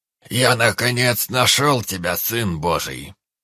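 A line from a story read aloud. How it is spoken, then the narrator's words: Booming solemn proclamation. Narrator (Russian): Зычным голосом провозгласил посредник бледного брата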